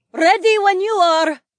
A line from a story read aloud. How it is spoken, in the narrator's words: she called out